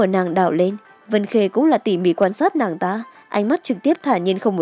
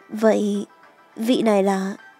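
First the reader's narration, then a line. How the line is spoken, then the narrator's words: Slightly embarrassed speech. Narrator (Vietnamese): hơi ngượng ngập rồi nói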